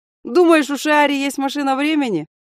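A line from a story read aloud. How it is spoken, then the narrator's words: Laughing loudly. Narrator (Russian): расхохотался Хаген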